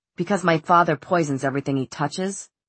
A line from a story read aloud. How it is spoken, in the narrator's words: Jay said bitterly